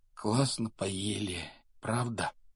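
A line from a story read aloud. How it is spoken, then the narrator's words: Muffled mumbling. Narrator (Russian): бормотание Рона, скрытого от него тяжелыми шторами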